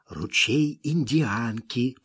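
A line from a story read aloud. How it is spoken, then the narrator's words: Whispering. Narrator (Russian): продолжал шептать Смок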